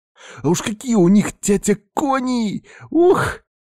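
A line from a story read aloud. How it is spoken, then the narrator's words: Boy's delighted exhale. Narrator (Russian): Мальчик выдохнул, восторгаясь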